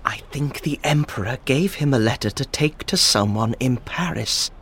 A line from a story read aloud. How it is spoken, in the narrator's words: Danglars whispered in the shipowner's ear